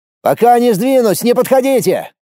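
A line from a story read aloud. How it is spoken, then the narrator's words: Warning shout. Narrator (Russian): крикнул, предостерегая помощников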